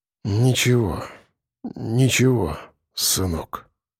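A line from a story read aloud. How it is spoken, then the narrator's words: Forced, strained words. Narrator (Russian): выдавил я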